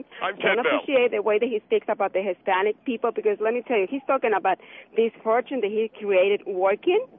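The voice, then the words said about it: Spanish accent. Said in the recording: “yes, I have a Spanish accent.”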